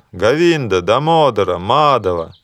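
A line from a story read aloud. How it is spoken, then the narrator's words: Loud chanting. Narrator (Russian): браманы имя Твое громко поют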